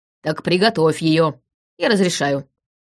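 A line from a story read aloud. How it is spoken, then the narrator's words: Barking father. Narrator (Russian): рявкнул отец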